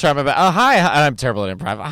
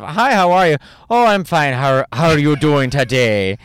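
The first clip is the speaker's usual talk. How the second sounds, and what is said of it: Attempted Irish accent, sounds Midwestern. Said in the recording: “I think I'm doing like the mom from Bobby's World ... I'm a Wisconsin mom. That's my Irish accent.”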